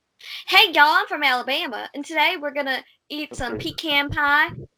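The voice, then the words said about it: Put-on Southern country accent. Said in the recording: “we don't have the accent. Like, we don't sound like, I'm telling you, let me make the accent real quick ... country bumpkins”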